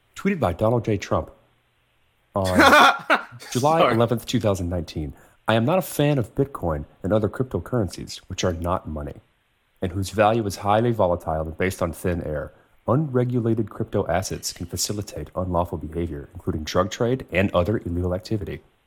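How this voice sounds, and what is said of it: Calm NPR radio announcer voice. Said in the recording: “this in an NPR voice”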